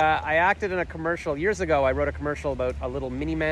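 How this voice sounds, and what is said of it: Usual voice. Nothing is said of it.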